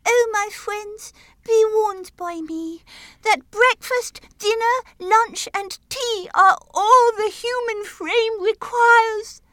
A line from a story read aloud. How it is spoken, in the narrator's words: Henry, with his latest breath, cried